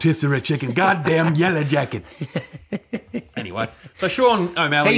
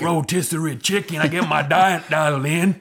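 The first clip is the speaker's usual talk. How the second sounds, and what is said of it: Imitates another person's voice. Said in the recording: “Stone Cold Steve Austin show ... that's my impression”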